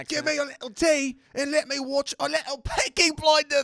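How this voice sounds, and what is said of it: Bad British Peaky Blinders accent. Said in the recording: “Peaky Blinders. Cool. They like that impression. ... With that god awful accent.”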